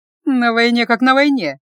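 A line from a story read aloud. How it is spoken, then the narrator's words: Mocking sister smirking. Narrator (Russian): насмешливо усмехнулась в ответ сестра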